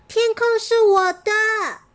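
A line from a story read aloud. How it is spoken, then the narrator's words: Shrieking girl. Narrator (Chinese): 雅雅……她尖叫着说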